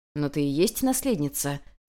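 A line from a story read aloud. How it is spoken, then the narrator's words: Calm reply. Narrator (Russian): спокойно отозвался на это Хань Ли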